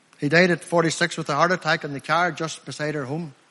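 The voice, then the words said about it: Northern Irish country accent. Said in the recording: “I'm from Limavady District, by the way... I'm a country lad, by the way. You know by my accent, I'm not from around here.”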